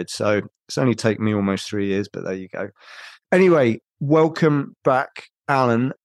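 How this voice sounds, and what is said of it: Slightly off, sick-sounding voice. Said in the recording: “my voice is a bit weird, and that's because I got COVID”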